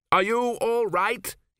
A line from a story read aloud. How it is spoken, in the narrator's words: he shouted above the wind